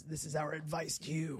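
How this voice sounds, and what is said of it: Unusually deep voice. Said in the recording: “why my voice got deep”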